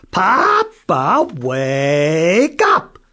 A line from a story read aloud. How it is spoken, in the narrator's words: Jason yelled